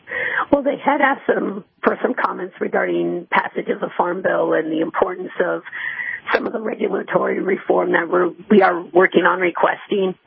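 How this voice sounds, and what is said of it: Hoarse, rough voice. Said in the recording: “I ended up losing my voice a little bit, so I apologize for sounding a little rough.”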